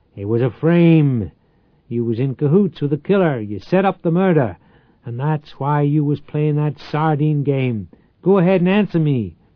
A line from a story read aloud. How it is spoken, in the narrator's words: bellowed